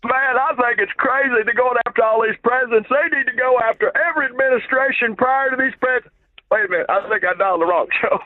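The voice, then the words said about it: Bill Clinton impression. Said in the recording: “was he going for his Bill Clinton impression there?”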